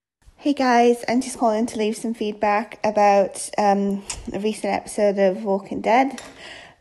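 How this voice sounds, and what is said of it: British accent. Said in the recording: “another fantastic lady with a fantastic accent. ... from the UK.”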